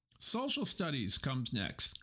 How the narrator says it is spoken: cried Elizabeth Gardner eagerly

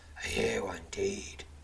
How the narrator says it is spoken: says the masked swordsman, his voice laced with scorn

